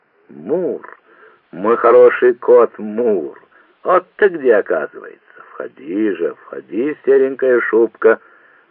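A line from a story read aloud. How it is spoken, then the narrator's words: Joyful greeting. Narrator (Russian): радостно приветствовал хозяин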